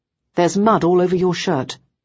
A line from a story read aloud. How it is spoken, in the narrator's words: I said quite sternly